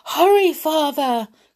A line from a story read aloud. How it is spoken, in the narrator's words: cried Pinocchio